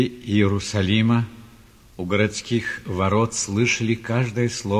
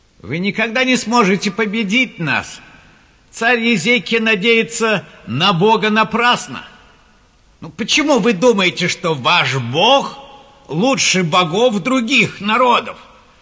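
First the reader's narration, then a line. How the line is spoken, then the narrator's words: Envoy shouting again. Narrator (Russian): Снова закричал посол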